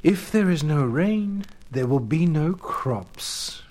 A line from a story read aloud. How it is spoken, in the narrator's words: replied Sin sadly